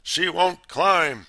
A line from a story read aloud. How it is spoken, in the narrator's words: thundered